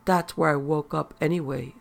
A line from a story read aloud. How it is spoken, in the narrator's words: said the pad